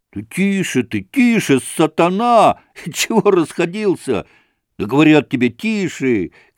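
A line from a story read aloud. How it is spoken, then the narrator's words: Group shouting. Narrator (Russian): кричали разбойники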